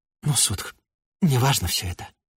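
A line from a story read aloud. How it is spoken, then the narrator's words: Hesitant, then quiet. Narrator (Russian): сказал он, потом поколебался, тихо прибавил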